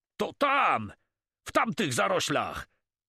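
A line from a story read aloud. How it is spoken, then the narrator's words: Shouted. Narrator (Polish): krzyknął Cormon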